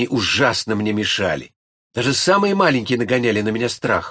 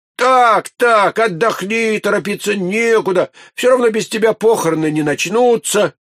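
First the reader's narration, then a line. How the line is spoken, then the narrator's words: Boy shouting. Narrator (Russian): Тогда мальчишка кричал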